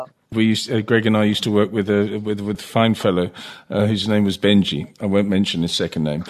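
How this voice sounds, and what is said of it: Usual voice. Nothing is said of it.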